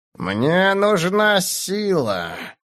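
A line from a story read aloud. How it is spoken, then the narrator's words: Hissing through clenched teeth. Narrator (Russian): прошипел сквозь сжатые зубы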